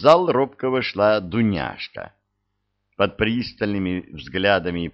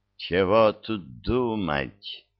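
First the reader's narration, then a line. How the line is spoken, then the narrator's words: Creaky voice. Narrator (Russian): проскрипела Ядвига Киевна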